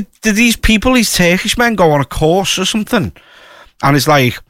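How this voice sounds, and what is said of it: Usual voice. Nothing is said of it.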